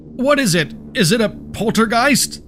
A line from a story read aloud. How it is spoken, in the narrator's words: Joseph shouted as they were dangling back and forth